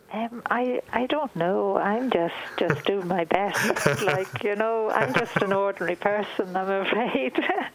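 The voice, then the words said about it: Irish Dublin accent. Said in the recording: “I worked in Dublin for about 6 months ... your accent is reminding me of a lovely time in my life”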